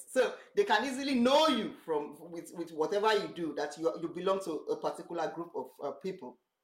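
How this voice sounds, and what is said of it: Nigerian English accent. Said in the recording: “are you from Nigeria? ... Because of my accent.”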